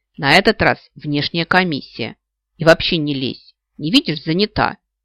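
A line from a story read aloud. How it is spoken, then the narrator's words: Snapped. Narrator (Russian): Огрызнулась Снежа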